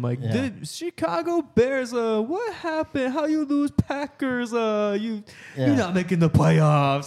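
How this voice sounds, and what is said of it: Poorly imitated accent. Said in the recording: “your shitty accent”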